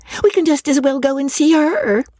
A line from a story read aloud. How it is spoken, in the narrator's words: cried Miss Steele